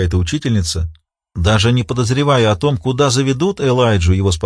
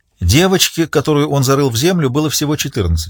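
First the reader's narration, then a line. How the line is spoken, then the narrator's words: Plain. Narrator (Russian): сказал Риццоли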